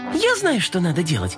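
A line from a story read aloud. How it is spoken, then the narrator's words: Exclaiming kitten. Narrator (Russian): воскликнула кошечка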